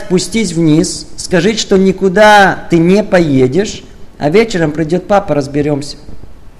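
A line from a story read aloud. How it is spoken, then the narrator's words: Calm and firm. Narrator (Russian): спокойно и твердо сказать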